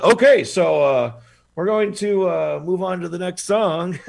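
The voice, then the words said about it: Imitates another person's voice. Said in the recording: “my Dave impression.”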